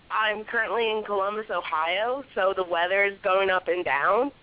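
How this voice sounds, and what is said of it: Loud voice with a cold. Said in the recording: “sorry I'm yelling. I have a cold.”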